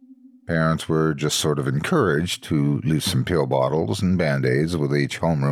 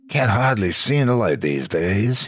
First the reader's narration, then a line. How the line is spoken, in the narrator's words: would say with a chuckle